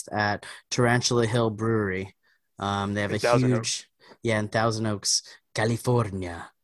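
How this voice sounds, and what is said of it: Put-on Spanish accent. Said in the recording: “I don't know why I said that in a Spanish accent.”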